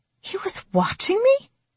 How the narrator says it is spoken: I gasped

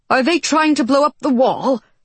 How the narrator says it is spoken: John choked

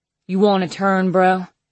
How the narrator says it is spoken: he asks thickly

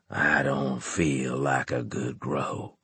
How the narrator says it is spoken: he said in a croaking voice

